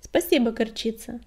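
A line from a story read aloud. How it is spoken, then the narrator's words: Calm. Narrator (Russian): спокойно сказала синяя звезда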